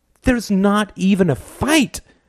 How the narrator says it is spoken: cried Gordon, his voice catching thickly

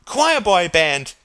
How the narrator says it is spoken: cried Gerald

